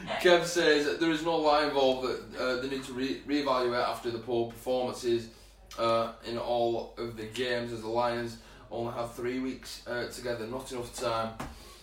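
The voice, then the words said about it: Wigan English accent. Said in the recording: “my Wigan accent”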